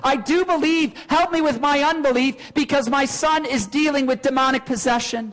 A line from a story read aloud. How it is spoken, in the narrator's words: this father emotionally cried out full of tears